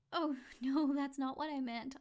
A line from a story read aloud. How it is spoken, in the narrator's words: I said, laughing